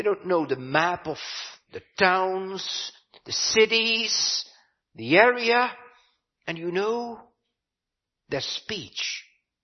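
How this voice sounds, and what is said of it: Heavy Dutch accent. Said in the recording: “you can hear a heavy Dutch accent for sure”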